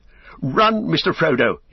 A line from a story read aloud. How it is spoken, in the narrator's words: he cried